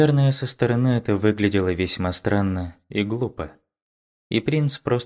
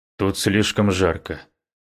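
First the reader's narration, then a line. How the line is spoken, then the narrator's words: Throat-clearing mutter. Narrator (Russian): прочистив горло, пробормотал Муян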